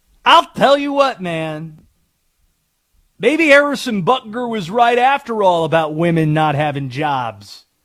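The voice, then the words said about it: Jon Gruden impression. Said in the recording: “good Gruden impression at all. Fair or foul? My Gruden impression”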